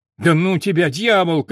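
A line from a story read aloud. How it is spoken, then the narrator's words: Shout. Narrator (Russian): крикнул Филька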